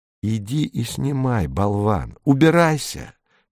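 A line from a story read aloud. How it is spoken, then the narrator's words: Hissed. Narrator (Russian): прошипела Сида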